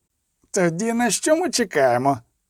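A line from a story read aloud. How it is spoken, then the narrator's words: Shouted. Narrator (Ukrainian): крикнув Стевро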